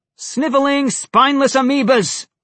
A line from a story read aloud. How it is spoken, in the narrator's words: Alex shouted